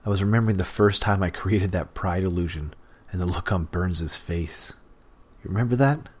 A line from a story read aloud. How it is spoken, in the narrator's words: Leech chuckled with a sound like a rock-grinding machine